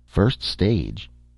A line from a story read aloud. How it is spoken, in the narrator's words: Taylor repeated nervously